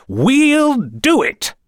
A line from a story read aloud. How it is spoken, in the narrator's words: The nations of Europe cried out as one